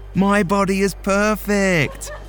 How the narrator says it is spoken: they yelled

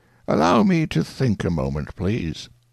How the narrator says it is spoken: said calmly

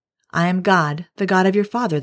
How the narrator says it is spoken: the voice said

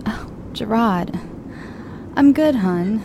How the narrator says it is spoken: Kathy sighs

